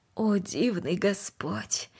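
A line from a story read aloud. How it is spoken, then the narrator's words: Quiet. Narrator (Russian): тихо произнесла она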